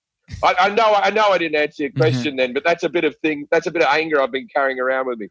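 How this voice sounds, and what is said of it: Australian accent. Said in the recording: “my accent ... All I can be is an Australian bloke ... this accent”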